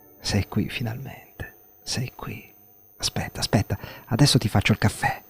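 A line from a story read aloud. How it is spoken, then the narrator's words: Overcome, murmuring. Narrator (Italian): mormorò non trattenendosi più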